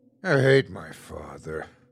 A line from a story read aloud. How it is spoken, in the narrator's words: Cooper muttered under his breath